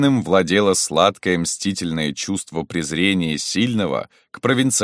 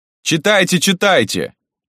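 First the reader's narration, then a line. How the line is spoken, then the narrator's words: Shout from audience. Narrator (Russian): кто-то крикнул из зала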